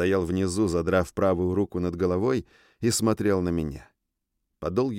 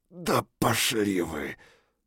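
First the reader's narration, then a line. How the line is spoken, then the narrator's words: Strained, squeezed gasp. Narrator (Russian): выдавил еле-еле стиснутый чудовищной силой директора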